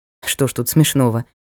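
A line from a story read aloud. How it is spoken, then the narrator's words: Snorted. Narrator (Russian): хмыкнул Ник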